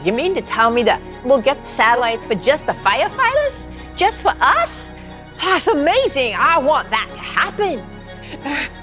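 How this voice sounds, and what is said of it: Put-on Boston accent. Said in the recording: “excuse me if I fumble my Boston accent”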